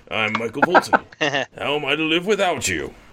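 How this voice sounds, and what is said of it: Cheesy lounge-singer character voice. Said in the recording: “makes him sound like a crappy 90s, lounge singer ... talking a little bit in a Voltan voice”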